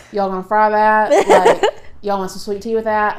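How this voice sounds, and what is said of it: Put-on Southern twang. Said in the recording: “a southern accent ... it's a twang”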